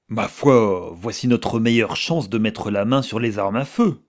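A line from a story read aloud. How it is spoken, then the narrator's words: Exclaiming. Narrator (French): s'écria Rayac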